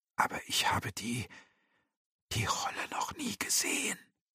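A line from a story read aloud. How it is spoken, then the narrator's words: Defiant, curious trembling whisper. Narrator (German): flüsterte Thymur und konnte unter dem lippenzitternden Trotz die Neugier doch nicht verbergen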